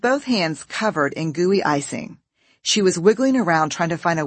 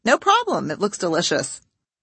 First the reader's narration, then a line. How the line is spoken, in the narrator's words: I responded in my perkiest voice